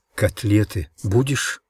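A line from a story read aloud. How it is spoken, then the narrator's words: Stage whisper from behind. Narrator (Russian): театральным шепотом спросила за моей спиной Маришка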